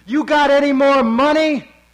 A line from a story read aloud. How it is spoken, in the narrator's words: Suddenly, shouts